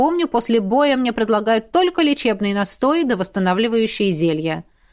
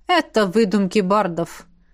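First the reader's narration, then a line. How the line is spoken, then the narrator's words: Colonel's snort. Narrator (Russian): фыркнул полковник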